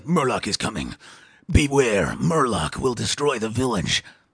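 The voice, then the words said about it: Weird put-on voice. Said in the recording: “That's a weird voice.”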